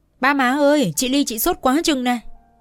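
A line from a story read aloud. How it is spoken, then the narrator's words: Panicked cry. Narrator (Vietnamese): mới hoảng hốt kêu lên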